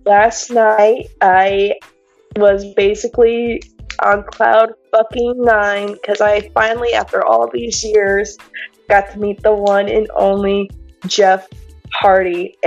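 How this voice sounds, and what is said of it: Hoarse, strained voice. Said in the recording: “I lost my voice, if you couldn't tell”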